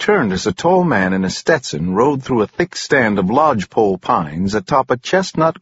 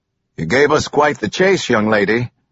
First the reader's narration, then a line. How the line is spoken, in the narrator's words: the man said harshly